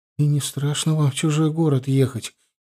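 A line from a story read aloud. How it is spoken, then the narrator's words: Sudden, frightened question. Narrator (Russian): испуганно глядя на нас, спросила вдруг Эмма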